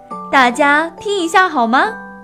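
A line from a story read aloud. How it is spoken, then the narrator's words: Sudden loud call. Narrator (Chinese): 爸爸突然大声叫道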